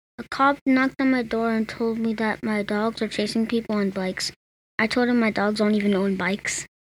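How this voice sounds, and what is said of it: Flat monotone joke delivery. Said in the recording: “He said it so monotone.”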